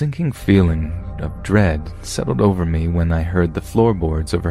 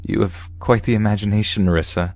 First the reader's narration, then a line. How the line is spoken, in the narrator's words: chuckled